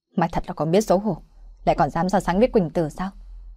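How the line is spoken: Angry shout. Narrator (Vietnamese): Hắn tức giận mà quát lên

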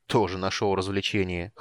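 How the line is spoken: Snorting. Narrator (Russian): хмыкнул Карамон

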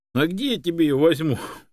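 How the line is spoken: Laughing. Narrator (Russian): рассмеялась Чанга

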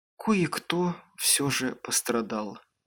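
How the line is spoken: Sad. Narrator (Russian): грустно сказала она

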